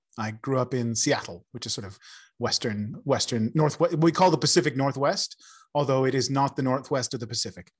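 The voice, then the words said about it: American accent. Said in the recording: “As you can probably tell from my accent, I'm originally from America.”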